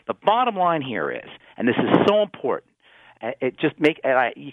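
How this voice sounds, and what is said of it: Angry, passionate tone. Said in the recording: “can hear it in my voice, I get so angry, and I get so passionate about this”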